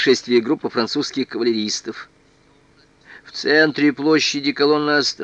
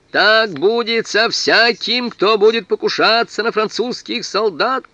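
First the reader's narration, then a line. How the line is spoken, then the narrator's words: Menacing shout. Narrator (Russian): Грозно выкрикнул офицер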